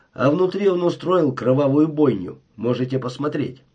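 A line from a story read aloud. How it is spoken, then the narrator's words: Grumbling. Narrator (Russian): проворчал Хелис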